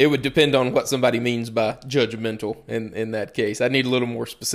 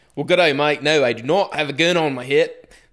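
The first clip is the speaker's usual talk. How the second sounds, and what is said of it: Bad put-on Australian accent. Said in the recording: “I sound a little more like a really bad Steve Irwin”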